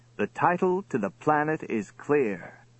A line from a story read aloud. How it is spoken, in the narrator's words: he said triumphantly